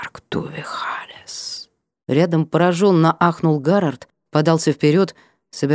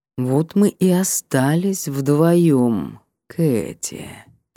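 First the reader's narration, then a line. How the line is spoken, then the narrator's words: Savoring drawl. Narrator (Russian): протянул Аяр, наслаждаясь каждым произнесенным звуком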